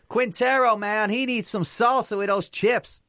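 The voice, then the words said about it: Bad fake American accent, sounds Mancunian. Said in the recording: “you've tried to be American there ... you said it in the most Manc way I've ever, like, proper Manchester, with them dips ... Horrific accent”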